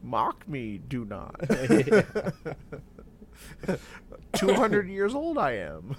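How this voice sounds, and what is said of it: Yoda character voice impression. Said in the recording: “who's a baby Yoda? ... That was a solid impression.”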